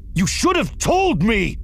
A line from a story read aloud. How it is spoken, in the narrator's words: he shouted